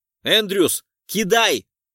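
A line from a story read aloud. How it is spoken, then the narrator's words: Shouting. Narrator (Russian): выкрикнул я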